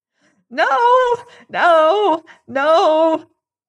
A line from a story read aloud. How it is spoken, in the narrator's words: shrieked Raikes, still upon his knees and cowering like a beaten hound